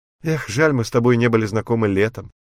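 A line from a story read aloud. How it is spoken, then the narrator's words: Light laughing voice. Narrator (Russian): легко засмеялась Ники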